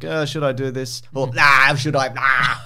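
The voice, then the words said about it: Imitates another person's voice. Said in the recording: “my Arnold impersonation”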